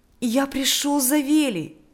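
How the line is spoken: Joyful voice. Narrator (Russian): сказал Миша радостным голосом

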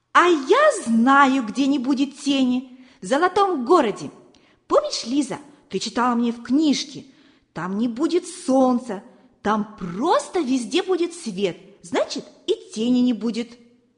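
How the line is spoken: Joyful exclamation. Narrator (Russian): Валерка радостно воскликнул

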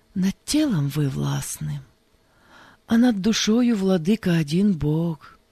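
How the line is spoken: Plain. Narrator (Russian): сказал Лукьян

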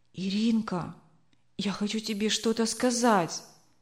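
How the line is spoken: Whispered. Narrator (Russian): прошептала она

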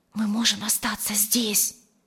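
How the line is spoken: Whisper. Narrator (Russian): прошептала она подруге

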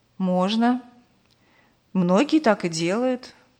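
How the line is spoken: Sad smiling voice. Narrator (Russian): грустно улыбнулся Аркадий Петрович

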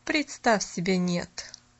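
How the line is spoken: Dry reply. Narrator (Russian): сухо отозвалась мисс Сноу

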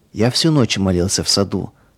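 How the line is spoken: Plain. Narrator (Russian): сказал Павел

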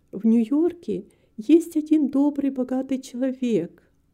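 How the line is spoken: Timid. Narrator (Russian): робко сказала миссис Карпентер

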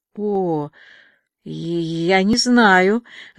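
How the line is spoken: Stammering, evasive. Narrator (Russian): запинаясь, попыталась выпутаться Диана

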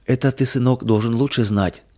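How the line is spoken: Gentle, tender. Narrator (Russian): ласково сказала мама

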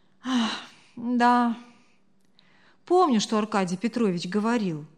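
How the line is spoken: Sigh. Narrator (Russian): вздохнула Кристина

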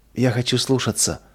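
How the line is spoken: Tearful whisper. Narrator (Russian): прошептала сквозь слезы Нина

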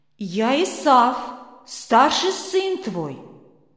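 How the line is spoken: Plain. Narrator (Russian): ему говорит

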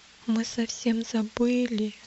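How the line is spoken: Barely audible whisper. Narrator (Russian): еле слышно прошептал надеющийся

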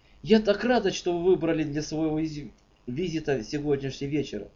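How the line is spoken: Cheerful. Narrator (Russian): весело сказала

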